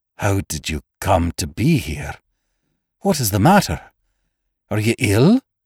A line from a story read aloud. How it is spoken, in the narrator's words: he whispered huskily